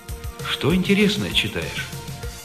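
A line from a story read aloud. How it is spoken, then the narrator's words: Quiet question. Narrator (Russian): тихо спросил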